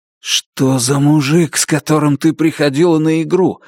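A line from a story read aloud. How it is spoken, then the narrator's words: Breathless exhale. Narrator (Russian): выдохнул я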